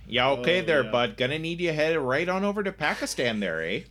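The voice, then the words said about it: Put-on Wisconsin accent. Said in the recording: “God talked to me and had like a Wisconsin accent ... God with a Wisconsin accent”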